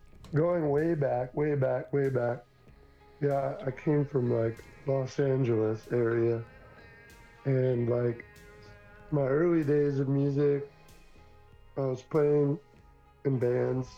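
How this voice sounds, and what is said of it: Sick, flu-affected voice. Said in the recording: “I got the flu like right before the show ... That's why my voice sounds like this. But so I normally don't sound like this.”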